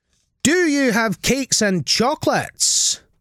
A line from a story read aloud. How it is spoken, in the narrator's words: the highway robber cried